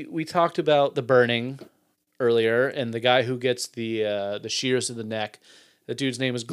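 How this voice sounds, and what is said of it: Usual voice. Nothing is said of it.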